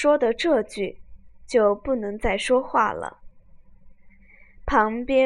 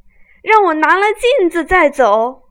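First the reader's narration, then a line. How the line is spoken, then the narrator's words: Shouting. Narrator (Chinese): 贾瑞叫道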